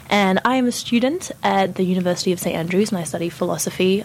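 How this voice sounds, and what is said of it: Strange French-Australian mixed accent. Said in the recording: “I'm French originally, but I lived in Australia for like 7 years, so my accent is a little bit strange.”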